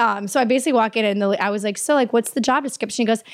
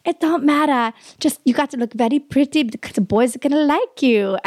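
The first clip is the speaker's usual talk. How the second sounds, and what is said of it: Put-on Asian accent. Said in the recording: “I don't know if this is okay for me to do the accent because it's like the whole like politically correct thing”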